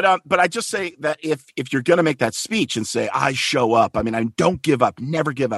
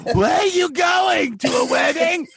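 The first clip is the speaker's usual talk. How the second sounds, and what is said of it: Voice of an elderly rabbi. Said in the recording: “imitation of Elizabeth as like an 80-year-old rabbi”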